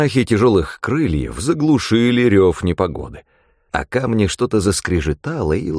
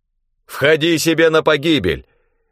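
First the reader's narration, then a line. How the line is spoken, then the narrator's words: Defiant shout. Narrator (Russian): крикнул я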